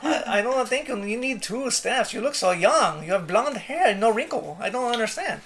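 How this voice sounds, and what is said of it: Bad, shifting put-on foreign accent. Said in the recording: “You've gone from like Spanish to Irish to sounds like really bad Asian. ... Terrible. ... You're not allowed to accent anymore.”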